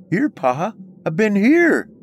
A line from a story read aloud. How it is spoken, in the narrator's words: cried out